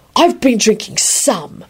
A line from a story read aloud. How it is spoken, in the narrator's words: he hissed in a conspiratorial whisper and hiccuped